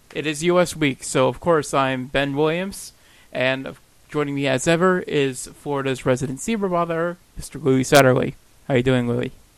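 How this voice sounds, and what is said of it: Thunderous, booming radio voice. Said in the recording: “you came in thunderous, my friend ... I have a radio voice”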